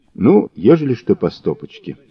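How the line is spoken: Plain. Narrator (Russian): сказал Мазур

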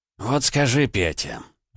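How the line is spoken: Sighing. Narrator (Russian): вздохнул

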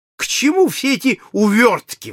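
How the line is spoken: Exclamation. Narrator (Russian): воскликнул полковник Проктор

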